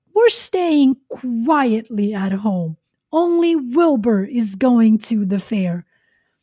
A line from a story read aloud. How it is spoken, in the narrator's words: snapped the goose